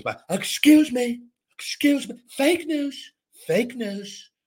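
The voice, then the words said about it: Imitates another person's voice. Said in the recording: “my Trump impersonation”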